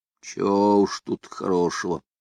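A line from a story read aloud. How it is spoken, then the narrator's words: Gloomy. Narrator (Russian): мрачно отозвался сухой лог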